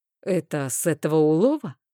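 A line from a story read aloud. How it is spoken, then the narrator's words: Muffled question. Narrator (Russian): глухо спросил Рейн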